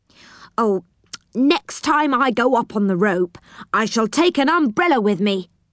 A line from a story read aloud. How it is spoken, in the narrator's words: she said angrily